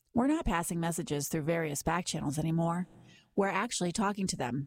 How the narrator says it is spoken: Vance said

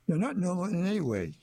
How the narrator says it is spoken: she laughs

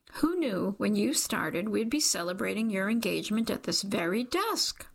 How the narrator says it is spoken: Rhonda squeaks

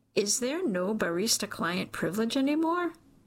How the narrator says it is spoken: Armin chuckles, the sound soothing

